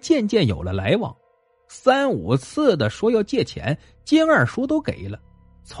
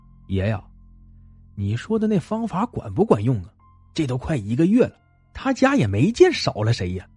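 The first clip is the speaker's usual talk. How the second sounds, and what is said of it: Quiet, hushed voice. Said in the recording (Chinese): “小声说了起来”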